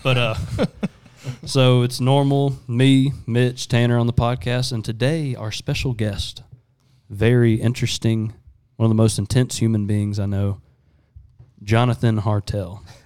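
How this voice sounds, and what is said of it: Polished radio announcer voice. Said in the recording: “I sound like every single person that's ever on the radio right now. ... You have a pretty good radio voice”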